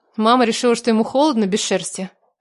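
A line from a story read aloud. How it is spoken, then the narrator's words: Snort. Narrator (Russian): хмыкнула я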